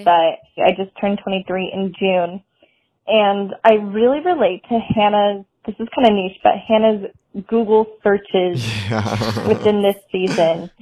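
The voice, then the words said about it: Californian accent. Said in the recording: “I am from California. You can probably tell by my accent”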